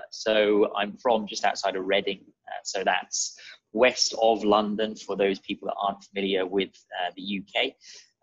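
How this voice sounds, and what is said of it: British accent. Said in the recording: “As you can probably tell by my accent, I am British.”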